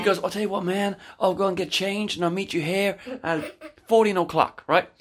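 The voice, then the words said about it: Put-on laid-back surfer accent. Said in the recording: “let's for this story say he is. because I can't do any other accent ... he's kind of got that surfer vibe”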